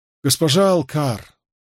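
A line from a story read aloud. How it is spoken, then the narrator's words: Tired. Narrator (Russian): устало сказал он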